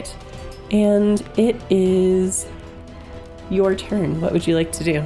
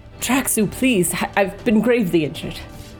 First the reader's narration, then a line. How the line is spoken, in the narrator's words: Nexel, still without a weapon, cries out towards Traxu and says